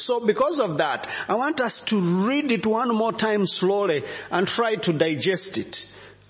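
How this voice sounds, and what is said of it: Rwandan accent. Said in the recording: “you must be used to Rwandan accent now.”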